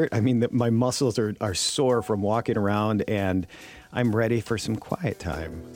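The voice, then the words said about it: Hoarse, worn-out voice. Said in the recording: “My voice is shot from trying to talk over loud music for days at a time.”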